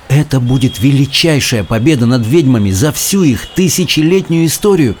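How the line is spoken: Exclamation. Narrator (Russian): воскликнула

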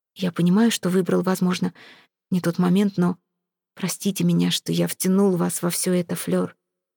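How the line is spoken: Quiet. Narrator (Russian): Сезар ... тихо сказал

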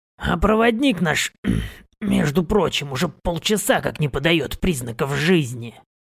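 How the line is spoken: Grumbling. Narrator (Russian): Проворчал Борг

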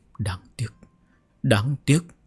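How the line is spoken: Conflicted muttering. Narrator (Vietnamese): Chỉ Cứu Vân đã có vẻ mặt phức tạp lầm bầm

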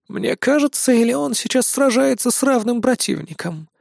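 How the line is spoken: Pensive worried old woman. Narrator (Russian): спросила задумчиво старуха, с беспокойством

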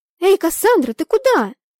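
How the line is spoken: Girl calling after someone. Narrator (Russian): крикнула вслед девушка

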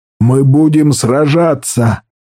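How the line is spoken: Roaring. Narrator (Russian): взревел Каркало

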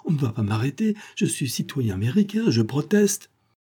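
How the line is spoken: Exclaiming. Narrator (French): s'écria Von Kopfen

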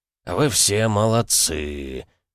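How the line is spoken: Drawl. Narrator (Russian): протянул он

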